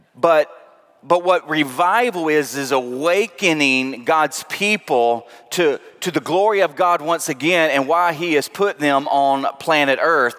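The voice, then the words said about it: Southern accent. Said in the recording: “that's that Southern accent for you”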